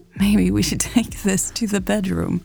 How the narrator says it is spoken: Mary giggled

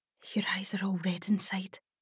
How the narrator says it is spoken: I whispered, as she pretended it didn't hurt

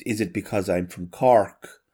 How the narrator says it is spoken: the last character comes on and says, with a strong accent

